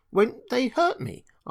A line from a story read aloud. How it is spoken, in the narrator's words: asked the girl anxiously